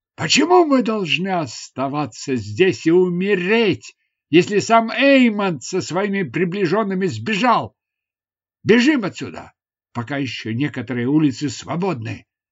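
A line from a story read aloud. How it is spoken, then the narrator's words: Sudden loud shout. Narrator (Russian): Внезапно кто-то из воинов громко крикнул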